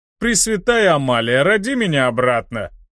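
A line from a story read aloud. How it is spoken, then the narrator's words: Laughing again. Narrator (Russian): Снова рассмеялся Массаракш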